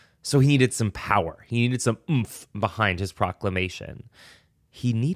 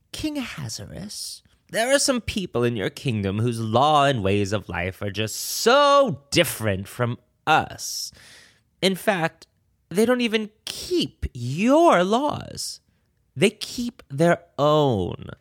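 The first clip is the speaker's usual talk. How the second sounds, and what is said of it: Villain character voice. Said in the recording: “I'm going to try to do my best villain voice here”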